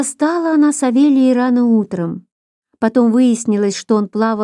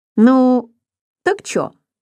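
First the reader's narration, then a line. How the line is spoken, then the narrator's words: Agreeing. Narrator (Russian): согласился Савелий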